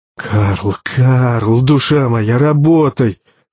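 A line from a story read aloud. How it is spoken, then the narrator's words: Wheezing, sick man struggling. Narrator (Russian): хрипел Аркадий Викторович, воюя не с пенетратором, а с собственным телом, предательски отказывающим больному бомбардиру-майору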